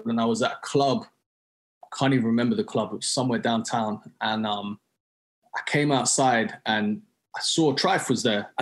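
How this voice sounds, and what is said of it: London accent. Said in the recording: “he heard my accent. He's like, yo, you from London? And I was like, yeah.”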